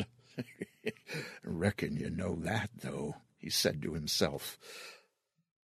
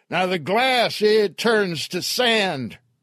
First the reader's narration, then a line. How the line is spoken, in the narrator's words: Earl yelled